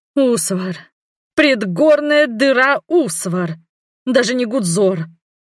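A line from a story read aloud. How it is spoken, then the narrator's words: Suffering moan. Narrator (Russian): страдальчески простонала сестра Мерле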